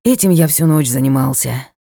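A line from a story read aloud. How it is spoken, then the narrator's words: Sigh. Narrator (Russian): вздохнул его темнейшество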